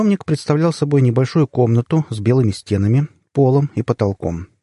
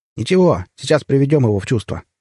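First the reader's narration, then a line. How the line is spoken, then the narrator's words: Chuckling big fellow. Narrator (Russian): хохотнул детина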